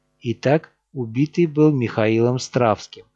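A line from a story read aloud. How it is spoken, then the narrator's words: Plain. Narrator (Russian): сказал я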